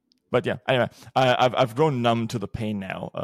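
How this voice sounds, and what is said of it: Usual voice. Nothing is said of it.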